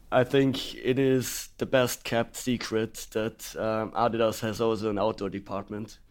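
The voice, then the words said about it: Congested voice with a cold. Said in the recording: “a man with a fairly substantial cold... my voice is a little bit dark”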